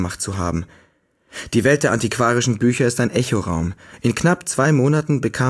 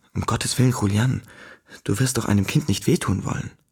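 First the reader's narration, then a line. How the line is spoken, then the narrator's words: Uncertain whisper. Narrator (German): flüsterte, nicht sehr sicher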